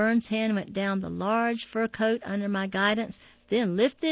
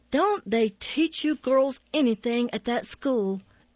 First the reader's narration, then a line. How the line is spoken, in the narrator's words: The lady's voice snarled